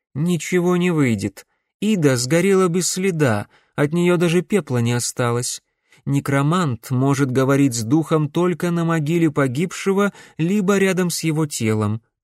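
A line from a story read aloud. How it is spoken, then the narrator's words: Plain. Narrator (Russian): ответила Корделия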